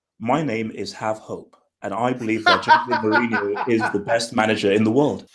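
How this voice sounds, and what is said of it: Put-on British accent. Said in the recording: “if you need the British accent, you can pull it out whenever you want.”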